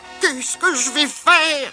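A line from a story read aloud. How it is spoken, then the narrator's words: Moaning. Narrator (French): gémit Kipik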